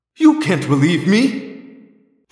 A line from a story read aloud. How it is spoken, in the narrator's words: my father cried